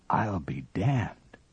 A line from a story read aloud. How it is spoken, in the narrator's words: whispered Lustig